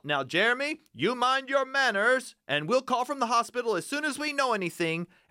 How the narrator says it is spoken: he called out

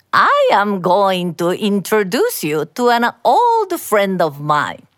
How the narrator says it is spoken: the magistrate said

